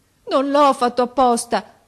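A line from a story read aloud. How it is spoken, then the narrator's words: Terrified sobbing. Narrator (Italian): diceva singhiozzando Garoffi, mezzo morto dalla paura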